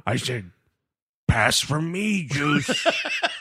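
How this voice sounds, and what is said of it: Imitates another person's voice. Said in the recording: “that's my Chris Berman impression.”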